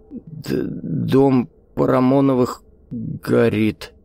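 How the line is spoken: Stammering old man's mutter. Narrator (Russian): заикаясь, пробормотал старик

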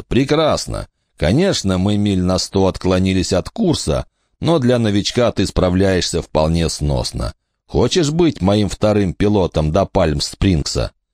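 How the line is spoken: Laughing. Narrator (Russian): Кумс рассмеялся

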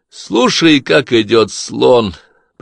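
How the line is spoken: Suggesting, then laughing. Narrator (Russian): предложил Клай и рассмеялся

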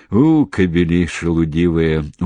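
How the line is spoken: Reproachful grumble. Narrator (Russian): укоризненно ворчал Седых

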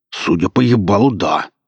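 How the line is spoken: Growling man. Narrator (Russian): прорычал бородатый

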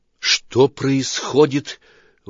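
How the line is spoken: Breathed out. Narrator (Russian): выдохнула

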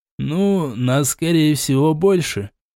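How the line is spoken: Uncertain. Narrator (Russian): также неуверенно сказал Хоттабыч

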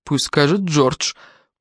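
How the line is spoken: Grumbling. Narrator (Russian): проворчал Джеймс

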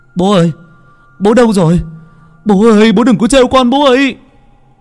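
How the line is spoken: Shout. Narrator (Vietnamese): Anh hét lên

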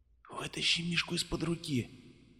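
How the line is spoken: Bearded man whispering. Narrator (Russian): прошептал бородач

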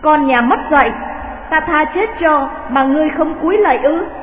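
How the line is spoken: Shouted. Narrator (Vietnamese): Mai Huyền Sương quát

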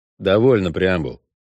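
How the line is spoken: Dry. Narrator (Russian): сухо предложил ведьмак

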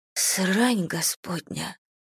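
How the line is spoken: Whisper. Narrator (Russian): прошептала я

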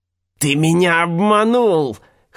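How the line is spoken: Old man wheezing. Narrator (Russian): хрипел старик

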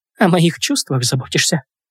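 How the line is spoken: Whisper. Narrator (Russian): прошептала

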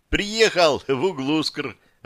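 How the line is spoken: Joyful. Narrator (Russian): радостно сказала Джанка

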